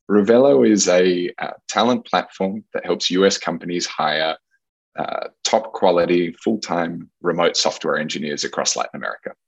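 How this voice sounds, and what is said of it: Australian accent. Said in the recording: “You can probably tell from the accent, I grew up in Australia”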